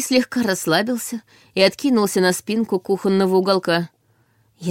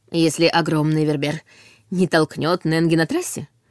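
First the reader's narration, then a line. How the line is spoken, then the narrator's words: Giggle. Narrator (Russian): хихикнула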